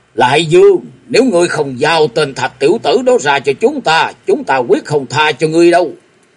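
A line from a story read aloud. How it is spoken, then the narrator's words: Distant roar from outside. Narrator (Vietnamese): bên ngoài vọng vào tiếng gầm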